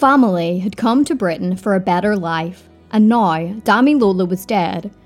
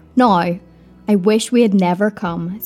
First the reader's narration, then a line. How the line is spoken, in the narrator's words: said Gloria